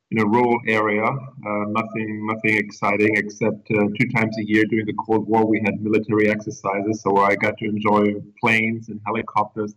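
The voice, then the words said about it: German accent. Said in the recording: “as you can, probably hear by the accent and by the name, I was born in Germany”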